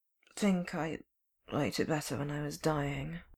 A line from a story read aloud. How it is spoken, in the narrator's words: Clint mumbled